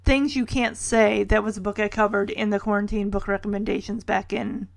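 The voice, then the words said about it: Slightly raspy voice. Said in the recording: “my voice is getting a little raspy”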